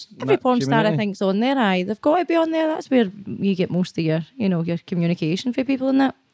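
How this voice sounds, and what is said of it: Scottish accent. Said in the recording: “this accent, honestly, this accent. ... I just cringe when I hear it on camera ... People love the Scottish accent.”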